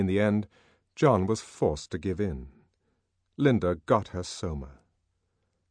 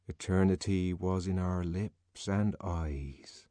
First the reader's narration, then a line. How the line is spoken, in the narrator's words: he murmured